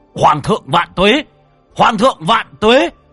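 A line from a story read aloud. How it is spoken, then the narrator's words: Army roaring. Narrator (Vietnamese): Đại quân gào thét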